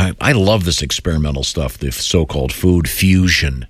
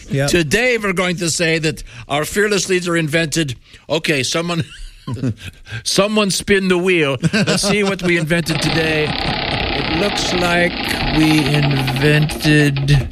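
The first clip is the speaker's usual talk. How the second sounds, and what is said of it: Put-on accent, propaganda official. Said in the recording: “I don't know why they had this accent.”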